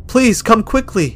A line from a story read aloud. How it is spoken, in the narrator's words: she shouted